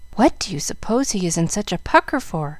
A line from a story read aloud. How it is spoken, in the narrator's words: whispered Jill